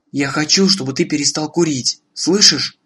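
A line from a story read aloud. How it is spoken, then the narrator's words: Quiet speech. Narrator (Russian): она тихо сказала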